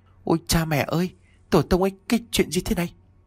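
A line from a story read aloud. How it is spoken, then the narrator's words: Trembling muttering to himself. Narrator (Vietnamese): Hắn run rẩy nói một mình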